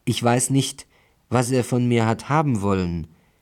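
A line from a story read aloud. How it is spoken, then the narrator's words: Murderer's whiny cry. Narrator (German): rief in weinerlichem Tone der Mörder aus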